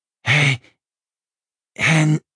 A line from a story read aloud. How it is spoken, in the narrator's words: Langrian croaked